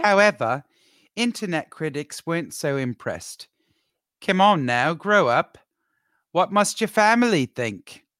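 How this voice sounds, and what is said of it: Put-on South African accent. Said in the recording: “my amazing South African accent ... I feel like I'm in South Africa right now”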